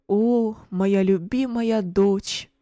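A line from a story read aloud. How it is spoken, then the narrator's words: Plain. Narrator (Russian): сказал отец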